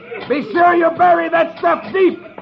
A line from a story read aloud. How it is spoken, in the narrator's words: The chief yells